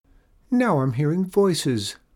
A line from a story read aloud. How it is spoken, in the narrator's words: cried the beautiful moose